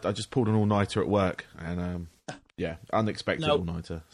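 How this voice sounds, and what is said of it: Tired, worn-out voice. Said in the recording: “Excuse my voice.”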